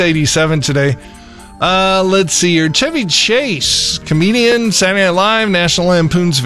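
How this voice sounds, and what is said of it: Usual voice. Nothing is said of it.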